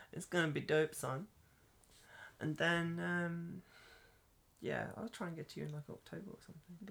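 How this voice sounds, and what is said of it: Birmingham English accent. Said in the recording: “the girl from Please, Birmingham. The accent's terrible.”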